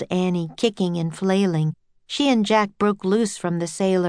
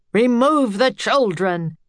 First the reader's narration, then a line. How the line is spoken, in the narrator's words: the captain roared again